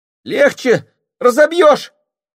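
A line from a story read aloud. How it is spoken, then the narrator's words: Flushed, angry cry. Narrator (Russian): вскрикнул, побагровев, Семен Трофимович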